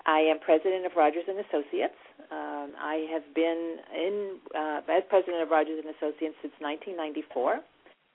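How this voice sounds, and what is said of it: New York East Coast accent. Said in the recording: “born and raised in New York, so if you hear this East Coast accent”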